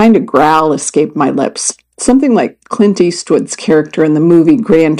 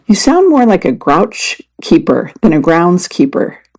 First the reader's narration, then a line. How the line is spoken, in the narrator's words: Debbie said, laughing